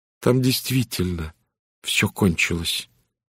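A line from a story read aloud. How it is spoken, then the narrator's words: Quiet. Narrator (Russian): тихо сказала Генриетта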